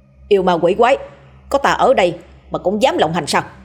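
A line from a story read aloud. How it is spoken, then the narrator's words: Shouting. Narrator (Vietnamese): Đen quát lên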